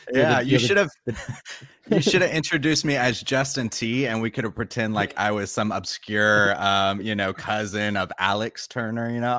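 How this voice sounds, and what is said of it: American accent. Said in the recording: “that isn't a British accent ... the token American”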